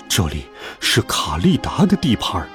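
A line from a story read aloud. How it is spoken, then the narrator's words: Low voice. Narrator (Chinese): 狮子低声告诉大家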